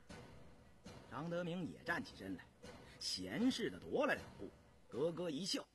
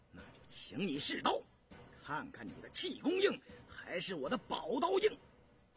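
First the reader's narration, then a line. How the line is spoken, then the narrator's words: Furious, menacing. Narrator (Chinese): 印四怒不可遏，恶狠狠地说道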